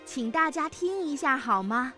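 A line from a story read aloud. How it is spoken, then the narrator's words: Sudden loud voice. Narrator (Chinese): 爸爸突然大声地说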